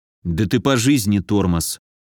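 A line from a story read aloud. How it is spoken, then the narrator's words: Grumbled. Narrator (Russian): Буркнул я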